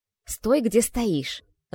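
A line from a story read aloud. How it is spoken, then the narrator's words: Angry hiss. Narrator (Russian): зло прошипела Морриган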